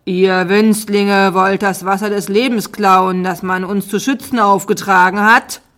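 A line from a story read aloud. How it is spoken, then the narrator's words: Dragon roaring. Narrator (German): brüllte der eine Drache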